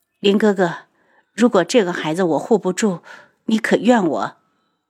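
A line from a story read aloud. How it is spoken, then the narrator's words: Choked sobbing. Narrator (Chinese): 哽咽着道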